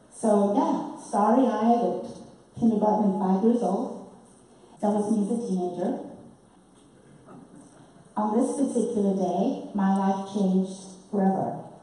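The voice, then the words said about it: British-influenced accent. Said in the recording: “I was raised in a British colony, had a British education, and thus the accent”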